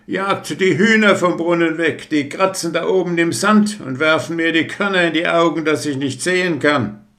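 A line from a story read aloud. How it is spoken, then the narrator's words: Calling out. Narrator (German): Er aber rief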